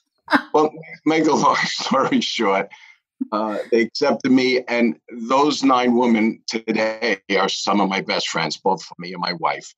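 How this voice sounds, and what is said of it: Bronx New York accent. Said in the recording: “the only guy from the Bronx with my accent”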